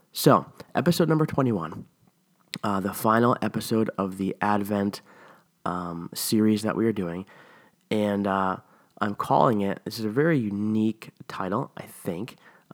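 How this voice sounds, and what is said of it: Worn-out, strained voice. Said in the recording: “my voice, I don't know what's wrong with it... I feel like my voice is very weird today... my voice is like done. So if I sound weird,”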